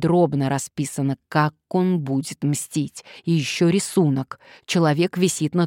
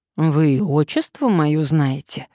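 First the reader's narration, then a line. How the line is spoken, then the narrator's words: Sighing. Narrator (Russian): вздохнул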